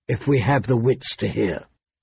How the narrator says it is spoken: she said softly

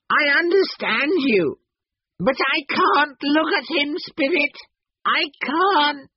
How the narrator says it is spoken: said Scrooge wildly

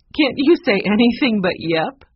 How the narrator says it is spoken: Maggie laughed

